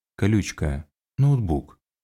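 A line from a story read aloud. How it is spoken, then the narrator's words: Reminding. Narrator (Russian): напомнил Хантер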